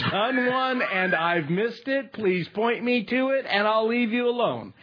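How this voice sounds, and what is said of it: Usual voice. Nothing is said of it.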